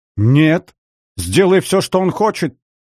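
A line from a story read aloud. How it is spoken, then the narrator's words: Hysterical shout. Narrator (Russian): выкрикнула истерично Елена, обильно брызгая слюной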